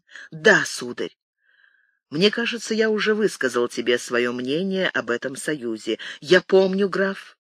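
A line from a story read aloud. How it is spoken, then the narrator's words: Quiet. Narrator (Russian): тихо произнес Рауль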